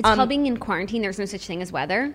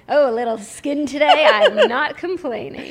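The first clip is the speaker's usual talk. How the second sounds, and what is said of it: Creepy TV weatherman voice. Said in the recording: “I sound like a guy on the news who's like creepy. ... Like the weather guy”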